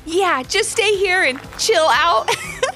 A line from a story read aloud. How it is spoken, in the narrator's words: laughed Ivy